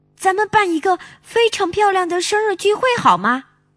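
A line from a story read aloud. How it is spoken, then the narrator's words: Excited shouting. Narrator (Chinese): 小熊妹妹边喊边兴奋地蹦着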